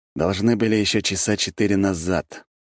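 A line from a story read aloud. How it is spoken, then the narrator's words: Gloomy. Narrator (Russian): мрачно сказал я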